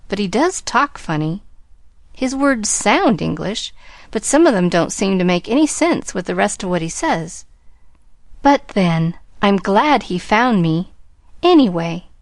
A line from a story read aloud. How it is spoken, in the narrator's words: finished with a contented little sigh